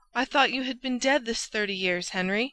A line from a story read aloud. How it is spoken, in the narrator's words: said she in a shaking voice